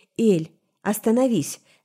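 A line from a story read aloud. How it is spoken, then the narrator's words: Sharp command. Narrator (Russian): резко скомандовал Цайран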